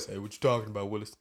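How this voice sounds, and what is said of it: Deep voice. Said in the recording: “with a deep voice.”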